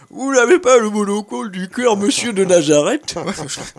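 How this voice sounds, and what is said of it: Imitates another person's voice. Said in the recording (French): “VGE lui disait souvent dans sa jeunesse ... Je suis super bon en imitation.”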